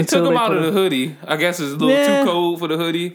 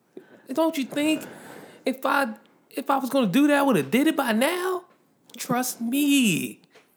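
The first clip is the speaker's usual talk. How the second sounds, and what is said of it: Imitates a TV character's voice. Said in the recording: “That's a good impression. Yeah, you could be Turtle.”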